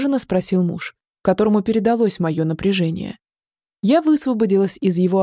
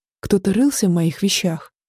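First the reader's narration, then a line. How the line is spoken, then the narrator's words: Trembling voice. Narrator (Russian): дрожащим голосом произнесла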